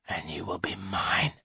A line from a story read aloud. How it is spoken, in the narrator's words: he whispers